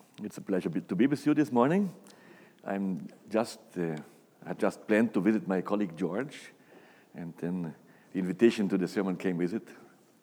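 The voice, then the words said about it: Brazilian accent with German roots. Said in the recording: “We are Brazilian, like George, from German descent, and there's the accent that the accent comes from”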